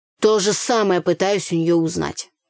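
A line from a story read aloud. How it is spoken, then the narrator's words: Grumbling. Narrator (Russian): проворчал Андрей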